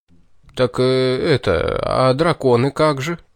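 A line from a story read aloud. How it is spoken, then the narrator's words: Flustered mumbling. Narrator (Russian): промямлил смешавшийся Джозеф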